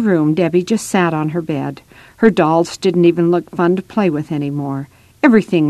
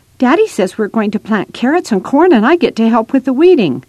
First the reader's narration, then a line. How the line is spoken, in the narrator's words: Becca chirped happily